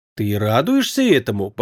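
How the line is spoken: Quiet question. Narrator (Russian): по-прежнему тихо спросила Сиамни

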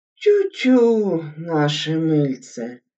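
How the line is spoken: Sigh from under table. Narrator (Russian): вздохнул из-под стола Хабанеев

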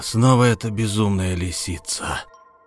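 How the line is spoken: Growled. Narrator (Russian): прорычал он

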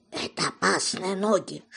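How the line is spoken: Whisper. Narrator (Russian): шепнул

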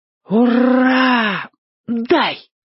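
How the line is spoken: Joyful exhale. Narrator (Russian): радостно выдохнул драчун

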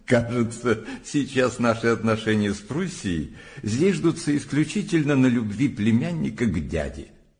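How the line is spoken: Laughing. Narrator (Russian): Горчаков, смеясь, сказал Жемини

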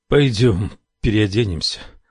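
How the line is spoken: Trembling voice. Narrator (Russian): произнес он дрожащим голосом

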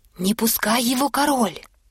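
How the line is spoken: Several voices whispering. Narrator (Russian): зашептали Дуль-Дуль и окружающие его царедворцы

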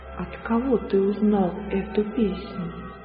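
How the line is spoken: Quiet question. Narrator (Russian): тихо спросил

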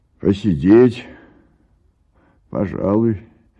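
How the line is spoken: Indifferent tone. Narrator (Russian): говорит равнодушным тоном Егор

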